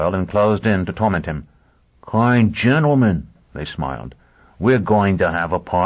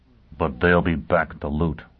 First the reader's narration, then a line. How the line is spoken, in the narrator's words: Foyle murmured